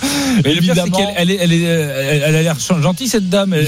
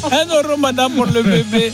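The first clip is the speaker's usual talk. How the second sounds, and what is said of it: Exaggerated put-on comic accent. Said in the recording (French): “on n'est pas obligé de prendre l'accent... c'est Michel Leeb”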